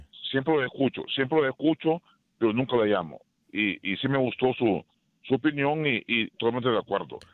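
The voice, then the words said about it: Radio announcer-style voice. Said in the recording (Spanish): “con esa gran voz de locutor que tiene usted. ... Excelente voz de locutor tiene.”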